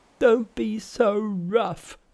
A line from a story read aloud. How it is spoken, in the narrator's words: begged Pigsy